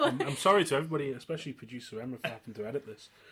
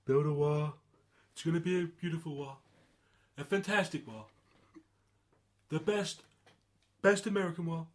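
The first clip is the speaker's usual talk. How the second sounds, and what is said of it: Donald Trump impression. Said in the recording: “build a wall in Trump's kind of accent ... That was terrible ... That's very good”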